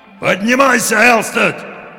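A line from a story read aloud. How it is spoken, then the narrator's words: Impatient old sailor shouting. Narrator (Russian): в нетерпении закричал старый морской волк с косматой грудью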